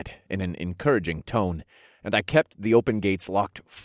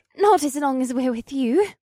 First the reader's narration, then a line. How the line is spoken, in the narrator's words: Alyssa chirped in a squeaky voice that belied her fear